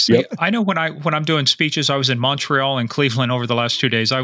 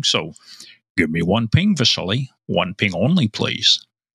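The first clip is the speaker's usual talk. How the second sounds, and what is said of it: Imitates another person's voice. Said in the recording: “my one imitation I do, and I think I do it's a pretty good one ... Not a bad Sean Connery.”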